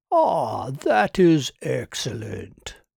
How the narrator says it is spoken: purred Kirk

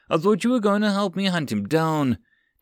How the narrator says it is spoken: David yelled, forgetting all pretenses of staying quiet and unassuming

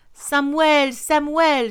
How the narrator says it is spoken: she cried out

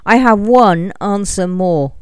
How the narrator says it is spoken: cried Arthur

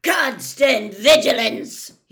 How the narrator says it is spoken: He barked

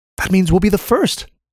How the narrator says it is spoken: piped up Shai

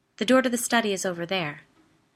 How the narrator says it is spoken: she said quickly

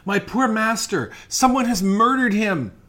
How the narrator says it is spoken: cried, sobbing

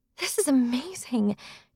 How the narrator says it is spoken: Jax exclaimed

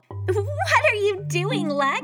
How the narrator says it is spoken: Chloe called from her bunk, laughing

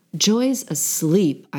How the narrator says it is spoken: growled

